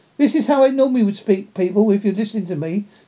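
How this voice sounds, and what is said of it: Slowed, toned-down accented speech. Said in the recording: “I'm trying to slow my accent down. If I speak, I'm going to speak properly now... So this is why I normally have to slow my accent down like this.”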